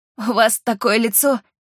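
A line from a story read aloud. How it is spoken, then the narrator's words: Giggle. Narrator (Russian): хихикнула Рита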